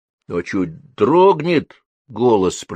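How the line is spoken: Drawling. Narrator (Russian): протянул Вадька

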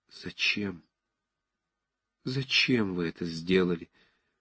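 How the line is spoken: Sudden quiet passionate reproach. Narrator (Russian): вдруг сказала она тихо, но со страстным упреком

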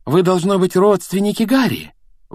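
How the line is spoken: Exclaiming. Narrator (Russian): воскликнула миссис Уизли

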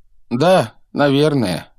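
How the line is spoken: Sad. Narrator (Russian): грустно произнес круглолицый

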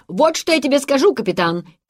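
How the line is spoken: Shouting in Dutch. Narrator (Russian): крикнул Ламберт, без запинки переходя на голландский язык

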